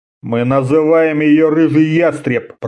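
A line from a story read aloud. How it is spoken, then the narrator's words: Grumbling. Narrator (Russian): проворчал он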